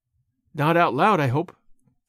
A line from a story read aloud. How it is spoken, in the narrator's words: said Marilla, anxiously